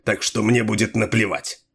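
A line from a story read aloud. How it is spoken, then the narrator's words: Sharp. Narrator (Russian): резко ответил Делуло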